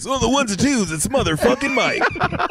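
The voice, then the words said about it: Strip club DJ announcer voice. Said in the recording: “That's the white strip club DJ voice.”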